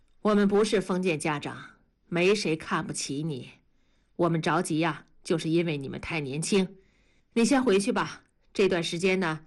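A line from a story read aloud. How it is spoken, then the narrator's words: Calm. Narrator (Chinese): 同志的声音变得平和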